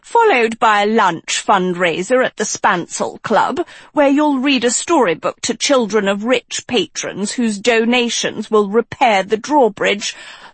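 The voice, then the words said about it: Crisp posh accent. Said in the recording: “continued in a crisp, posh accent”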